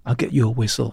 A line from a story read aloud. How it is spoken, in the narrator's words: I said